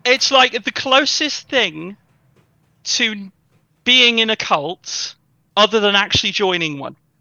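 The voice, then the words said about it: British accent, not northern. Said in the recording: “Based on ... accent,... Is just not very northern... Like home counties, I would say.”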